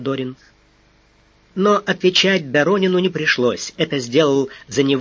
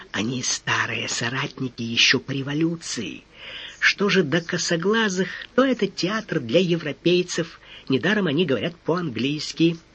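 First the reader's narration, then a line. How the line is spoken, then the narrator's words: Whisper from mouth corner. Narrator (Russian): Тот, шевеля краешком рта, прошептал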